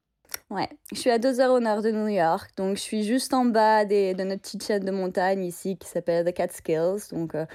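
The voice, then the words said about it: French with an American accent. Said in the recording (French): “Cet accent ... quel régal ... ça sonne euh, américain.”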